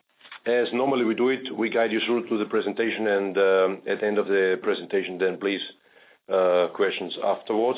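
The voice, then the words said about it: Hoarse, congested voice. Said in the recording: “I apologize for my voice, but I have a very strong cough and cold”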